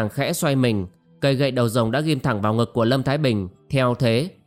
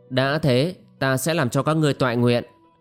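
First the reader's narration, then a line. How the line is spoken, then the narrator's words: Harsh, gritted voice. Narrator (Vietnamese): Cô gái áo xanh gằn giọng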